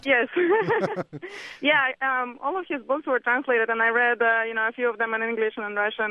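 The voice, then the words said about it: Russian accent. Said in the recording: “I can't help but detect your name and your accent ... I assume you're Russian and not Hungarian”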